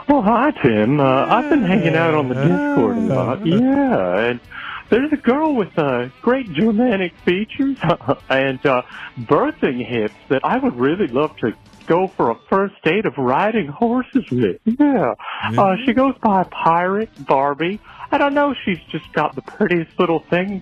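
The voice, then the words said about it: Comedic caller character voice. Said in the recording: “Oh, no, it's fake meat skin again. ... once you start doing that voice, it's hard to stop.”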